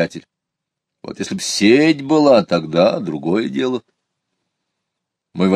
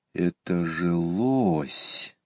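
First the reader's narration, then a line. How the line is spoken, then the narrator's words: Quiet. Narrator (Russian): тихо сказал Иван Кузьмич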